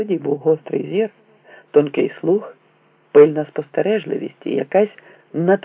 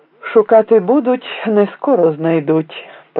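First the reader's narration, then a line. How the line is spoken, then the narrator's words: Sung, then laughing. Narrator (Ukrainian): проспівав і засміявся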